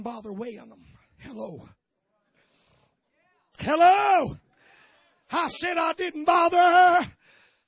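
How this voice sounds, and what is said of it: Exaggerated preacher voice. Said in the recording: “that's that preacher voice ... my best anointing voice”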